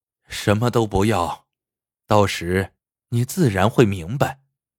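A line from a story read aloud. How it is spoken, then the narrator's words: Child sighing. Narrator (Chinese): 娃娃又叹了口气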